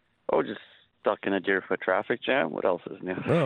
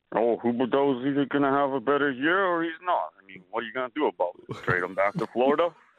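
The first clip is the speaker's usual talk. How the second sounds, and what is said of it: Imitates another person's voice. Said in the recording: “in a Sly Stallone voice”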